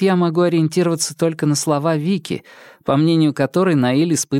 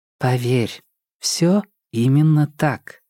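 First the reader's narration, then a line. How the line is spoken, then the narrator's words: Soft. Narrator (Russian): мягко произнесла Карская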